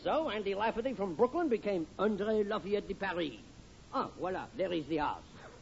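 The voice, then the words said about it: Phony French accent. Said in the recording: “this phony French accent ... I come out talking like this with a French accent”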